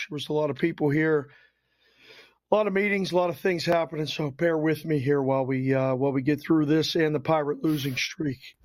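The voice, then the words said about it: Rough, hoarse voice. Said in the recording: “my voice is a little bit rough”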